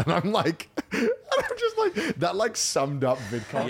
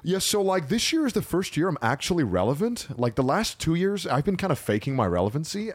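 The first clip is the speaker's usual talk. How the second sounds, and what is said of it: Put-on American influencer voice. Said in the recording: “that was a really good influencer voice ... I think the American accent really sounded”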